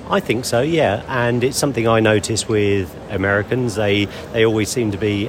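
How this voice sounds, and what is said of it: British accent. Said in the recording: “You are British. I, I think you are from your accent.”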